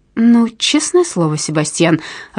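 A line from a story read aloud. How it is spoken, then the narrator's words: Irritated exclamation. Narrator (Russian): раздраженно воскликнула она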